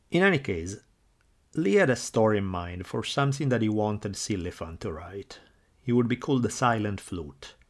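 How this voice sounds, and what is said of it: Thick foreign accent. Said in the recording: “your accent is way thicker than his”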